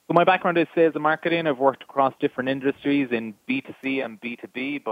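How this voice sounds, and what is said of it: Irish accent. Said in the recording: “you may have guessed by the accent, on the west coast of Ireland in Galway ... I'm the only Irish guy on the call.”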